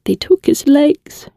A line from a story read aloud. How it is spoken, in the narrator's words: she said, her voice warbling